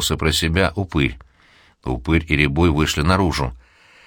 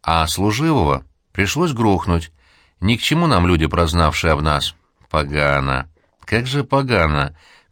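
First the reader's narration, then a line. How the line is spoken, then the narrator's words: Groaning. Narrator (Russian): застонал Пестриков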